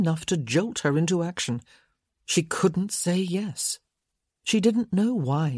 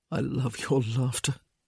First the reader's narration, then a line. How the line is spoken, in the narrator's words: he would murmur